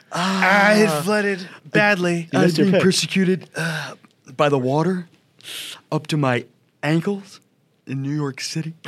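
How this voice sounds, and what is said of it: Imitates another person's voice. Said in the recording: “That's his Trump impression. ... That's pretty bad, huh?”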